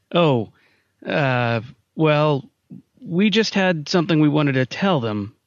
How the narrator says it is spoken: Simon's voice faltered

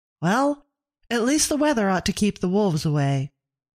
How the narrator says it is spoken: Abigail said brightly

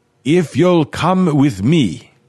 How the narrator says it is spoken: Renard shouted

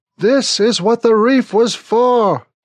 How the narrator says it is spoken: Smithick yells into my ear

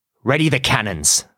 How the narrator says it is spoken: Barbossa snarls, as he faces down a fight he knows he cannot win

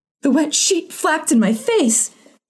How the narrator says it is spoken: she cried

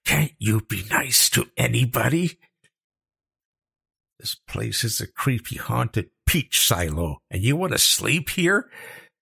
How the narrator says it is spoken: hissed

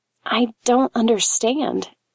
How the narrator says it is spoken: whispered

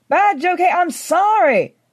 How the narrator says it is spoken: I shouted

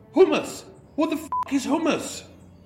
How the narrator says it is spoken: a homeless man yelling

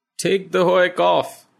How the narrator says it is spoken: cries delightedly

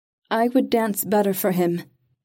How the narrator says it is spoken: she said, making her voice clear and strong

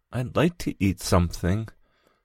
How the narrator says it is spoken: said Gregor anxiously

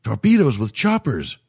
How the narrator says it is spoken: cried the alien

